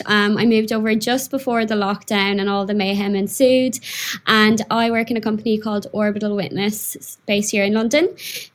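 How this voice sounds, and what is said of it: Irish accent. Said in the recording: “as you can hear from my voice, I'm Irish.”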